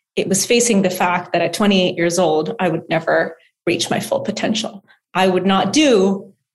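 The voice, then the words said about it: Emotional voice. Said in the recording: “I'm getting emotional”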